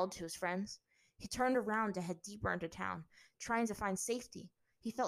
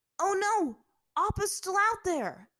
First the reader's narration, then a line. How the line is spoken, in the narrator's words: Aang shouted to Zuko and Azula, his voice high